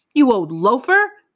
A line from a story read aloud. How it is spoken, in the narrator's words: he started yelling